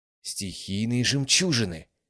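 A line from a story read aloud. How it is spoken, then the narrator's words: Exclamation. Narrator (Russian): воскликнула Брина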